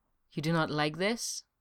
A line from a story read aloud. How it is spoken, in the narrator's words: Esca murmured, his lips deliberately closed against the sharp-scented patch of dark hair